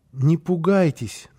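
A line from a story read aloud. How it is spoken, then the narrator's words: Timid. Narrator (Russian): начал он робко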